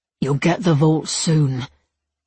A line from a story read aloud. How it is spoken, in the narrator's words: Levi rasped